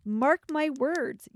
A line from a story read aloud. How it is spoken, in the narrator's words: yelled Lord Beansprout angrily